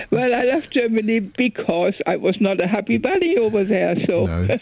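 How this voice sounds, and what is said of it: German accent. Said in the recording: “And you kept your accent, though. You kept your accent. ... I come out of Bremen ... Bremen, you know, the north.”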